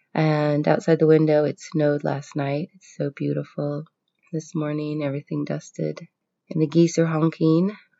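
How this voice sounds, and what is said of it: Congested voice from a cold. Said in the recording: “I have a cold. You can probably hear that”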